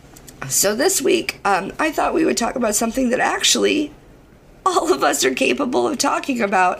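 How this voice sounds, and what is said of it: Hoarse, strained, damaged voice. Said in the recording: “My voice is shot ... talk like a fucking idiot ... this is what I sound like now ... I just sound awful”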